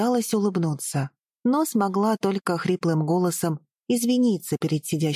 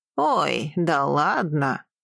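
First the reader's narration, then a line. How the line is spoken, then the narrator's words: Short laugh. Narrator (Russian): хохотнул он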